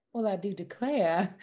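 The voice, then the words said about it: Put-on Southern Belle accent. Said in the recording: “like a Southern Belle? ... that one's very easy for me”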